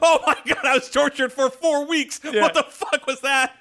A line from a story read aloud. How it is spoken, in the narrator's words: He's screaming